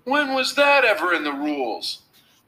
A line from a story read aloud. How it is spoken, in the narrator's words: shouted Alan